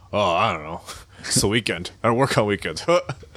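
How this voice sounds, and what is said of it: Imitates another person's voice. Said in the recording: “How's my Evan impression? Was that good?”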